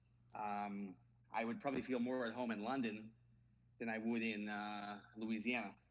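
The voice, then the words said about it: Slight New York accent, fast talker. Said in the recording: “I have a bit of a New York accent ... I talk fast”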